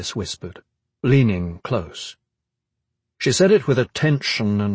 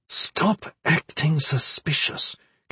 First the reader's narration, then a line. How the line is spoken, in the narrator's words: Caris said through gritted teeth